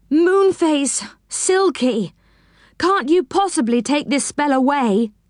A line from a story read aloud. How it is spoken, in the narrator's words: He groaned